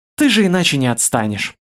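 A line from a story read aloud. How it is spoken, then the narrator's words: Sighing. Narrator (Russian): вздохнула Ралаша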